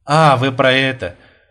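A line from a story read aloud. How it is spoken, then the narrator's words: Tired, smiling. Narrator (Russian): устало улыбнулся Бурмистров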